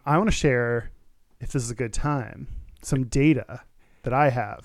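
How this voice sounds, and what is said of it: Attempted sexy voice. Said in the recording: “Your like attempt at a sexy voice”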